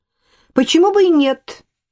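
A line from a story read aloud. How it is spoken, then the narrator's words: Sharp retort. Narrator (Russian): резко отозвала Ирма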